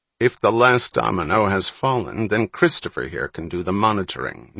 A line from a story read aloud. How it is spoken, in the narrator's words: Needleman said, a little more sharply